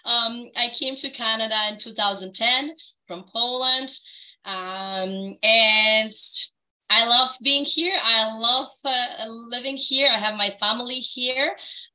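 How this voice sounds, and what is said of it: Polish accent. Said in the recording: “I hear a delightful accent ... No, I'm actually Polish.”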